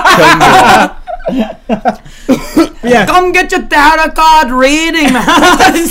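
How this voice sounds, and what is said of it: Put-on mixed British-Jamaican accent. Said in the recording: “You're trying to mix like a fucking a lazy British accent with a lazier Jamaican accent.”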